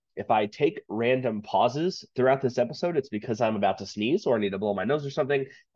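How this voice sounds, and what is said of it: Slightly stuffy, congested voice. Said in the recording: “my allergies have been kicking my ass ... I sound a little stuffy.”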